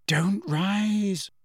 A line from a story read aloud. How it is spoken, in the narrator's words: Hermione whispered imploringly